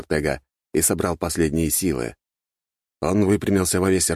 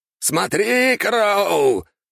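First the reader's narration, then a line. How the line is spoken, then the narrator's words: Shouted. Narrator (Russian): закричал Ортега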